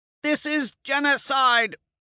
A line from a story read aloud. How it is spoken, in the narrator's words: Alexander roars into my ear